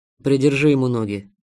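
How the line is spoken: Angry request. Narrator (Russian): зло попросил он

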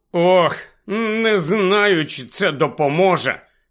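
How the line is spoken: Miserable mumble. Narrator (Ukrainian): ще нещаснішим тоном промимрив Невіл

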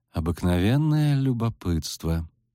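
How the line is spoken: Pleasant, melodious voice. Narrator (Russian): неожиданно приятным и мелодичным голосом ответила чародейка из Нильфгаарда

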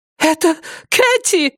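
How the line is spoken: Shrieking. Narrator (Russian): взвизгнула Шелли Четсворт

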